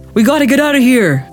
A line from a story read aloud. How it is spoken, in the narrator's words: a deep voice bellowed from the balcony